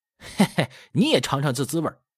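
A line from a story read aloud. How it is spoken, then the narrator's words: Laughing. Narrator (Chinese): 那一丁笑道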